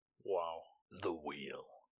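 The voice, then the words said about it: Dramatic narrator voice. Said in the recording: “That was my best narrator voice. ... Yeah, that was very good.”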